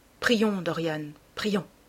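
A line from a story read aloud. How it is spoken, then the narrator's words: Murmuring. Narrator (French): murmura-t-il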